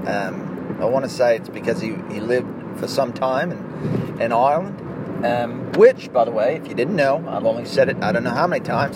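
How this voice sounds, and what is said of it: Put-on Australian accent. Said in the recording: “Try speaking in another accent. See how well you can do. I'd like to do it with the Scottish accent, but ... I feel like the Australian accent works a little bit better”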